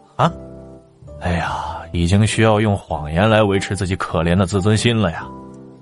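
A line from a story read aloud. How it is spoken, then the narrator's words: Sighing exclamation. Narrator (Chinese): 林七感叹道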